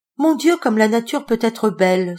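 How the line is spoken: Exclaimed. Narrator (French): s'exclama Denise

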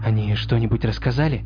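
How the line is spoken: Quiet question. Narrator (Russian): тихо спросила Флориан

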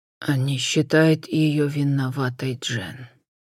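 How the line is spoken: Muffled moan into hands. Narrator (Russian): глухо простонал в ладони брат

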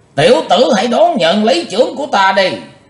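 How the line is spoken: Thunderous roar. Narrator (Vietnamese): lão đại ác ma quát như sấm nổ

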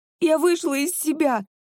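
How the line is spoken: Sobbing. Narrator (Russian): прорыдала Анна

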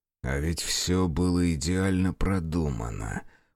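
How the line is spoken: Through gritted teeth. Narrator (Russian): процедил сквозь зубы Невзоров

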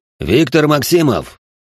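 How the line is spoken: Loud megaphone-amplified voice. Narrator (Russian): Громкий голос, усиленный мегафоном, раздался так громко, что стало слышно даже в подвале

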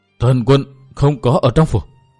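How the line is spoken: Trembling old man's reply. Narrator (Vietnamese): lão đáp qua giọng run run

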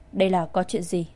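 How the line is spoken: Cold. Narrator (Vietnamese): Thái hậu ... lạnh lùng nói

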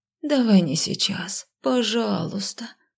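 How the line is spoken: Moaning. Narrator (Russian): простонала

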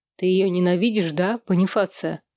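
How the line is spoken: Teasing question. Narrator (Russian): Под дразнивающим тоном спросил Сэм

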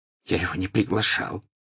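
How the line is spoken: Whispered. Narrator (Russian): прошептал Драко

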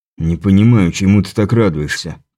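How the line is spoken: Grumbling. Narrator (Russian): пробурчал Крепыш

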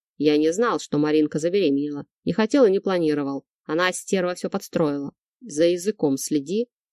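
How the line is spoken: Warning growl. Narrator (Russian): прорычал я и предупреждающе напомнил

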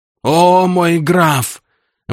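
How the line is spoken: Wailing. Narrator (Russian): взвыл маркиз

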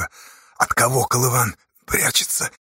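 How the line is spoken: Hoarse question. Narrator (Russian): хрипло спросил Асташа у Чупри

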